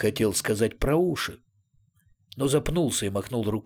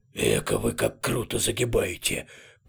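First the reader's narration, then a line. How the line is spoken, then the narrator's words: Grumbling two-headed creature. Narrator (Russian): проворчал двуглавый Юл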